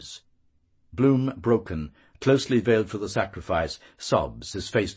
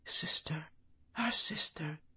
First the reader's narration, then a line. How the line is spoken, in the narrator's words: The yews, their leaves whispering